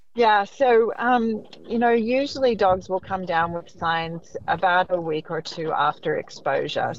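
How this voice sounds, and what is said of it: Non-local accent. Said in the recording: “probably from somewhere else way before that. You can tell from the accent.”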